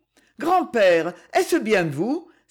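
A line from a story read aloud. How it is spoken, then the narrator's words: Startled, frightened cry. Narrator (French): s'écria-t-elle, saisie comme si elle eût aperçu un spectre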